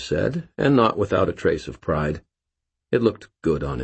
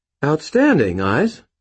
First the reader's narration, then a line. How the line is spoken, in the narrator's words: Murphy said, her voice brightening with genuine pleasure